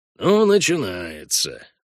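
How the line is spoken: Grumbled. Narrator (Russian): буркнул Хальгдаф

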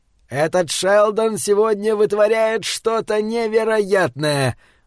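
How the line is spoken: Yelling inner voice. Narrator (Russian): вопил комментатор в голове Пола Шелдона

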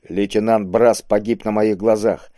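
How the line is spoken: Calm, confident objection. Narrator (Russian): спокойно и уверенно возразил ему Кабонга

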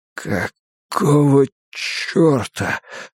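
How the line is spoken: Whisper. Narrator (Russian): прошептал он

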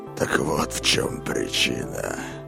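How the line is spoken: Dreamy whisper. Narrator (Russian): прошептал Корт, как во сне

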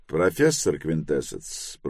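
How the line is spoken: Cold and formal. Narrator (Russian): проговорил он холодно и формально

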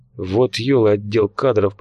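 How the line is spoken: Grumbling. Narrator (Russian): пробурчал Фрол

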